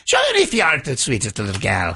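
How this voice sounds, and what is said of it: Put-on Irish accent. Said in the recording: “I do a little Irish accent for you.”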